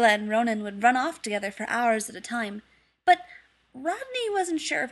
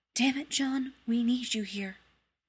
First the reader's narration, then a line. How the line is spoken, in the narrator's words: he heard her whisper